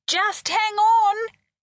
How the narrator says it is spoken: shouted over the hubbub

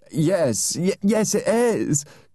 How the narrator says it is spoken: cried Mrs

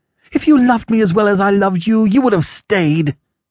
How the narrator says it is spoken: cried

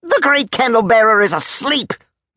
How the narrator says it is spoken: barked Crollo

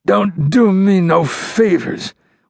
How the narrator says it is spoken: Wheeler moaned

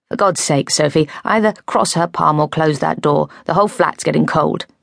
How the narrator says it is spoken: From behind me, Jake's voice said irritably

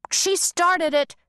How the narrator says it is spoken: Pewter bellowed

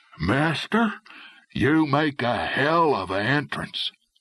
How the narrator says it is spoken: one whispering

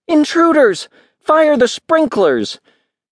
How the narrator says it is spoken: She gasped, and then called out

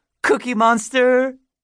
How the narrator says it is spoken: giggled at her own joke

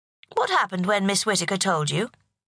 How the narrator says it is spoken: asked the principal

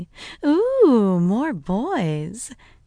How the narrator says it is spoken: cooed

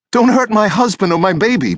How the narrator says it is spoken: Betsy Bucchieri begged

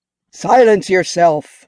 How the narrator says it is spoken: Mulckar roared out

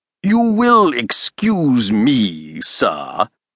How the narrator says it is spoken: boomed Challenger, who had sat in silence up to now, but whose expressive face registered most complete disapproval

